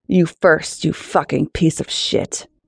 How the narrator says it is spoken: growl

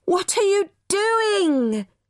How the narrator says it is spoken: yelled

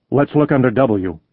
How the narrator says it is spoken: he said

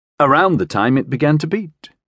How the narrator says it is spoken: said

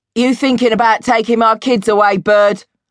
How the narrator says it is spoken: Stanley shouted at his ex missus

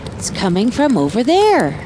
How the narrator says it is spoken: gasped Rainbow as she dashed

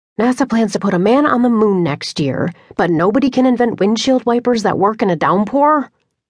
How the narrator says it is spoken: she grumbled

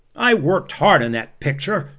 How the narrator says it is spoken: he shouted

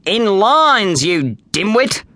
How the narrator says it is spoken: growled a mean-looking gladiator

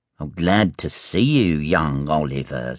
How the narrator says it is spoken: sneered Fagin

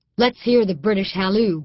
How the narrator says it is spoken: Gudger said

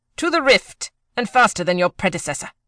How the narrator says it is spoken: snapped

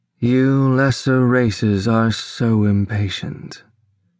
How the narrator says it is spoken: said, shaking her head sadly

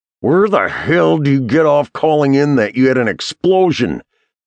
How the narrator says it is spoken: McBride snarled

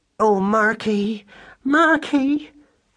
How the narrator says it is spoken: cried Madeline in a distracted voice

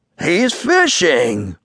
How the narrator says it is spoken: exclaimed Billy Mink

